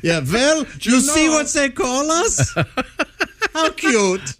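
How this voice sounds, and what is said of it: Attempted German accent. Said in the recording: “I'm trying to do a German accent.”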